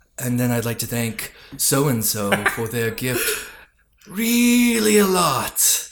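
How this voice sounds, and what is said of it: Weird serious radio announcer voice. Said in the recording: “I'll say it in that weird, serious voice I do when I'm doing credits ... You have a strong but beautiful radio voice”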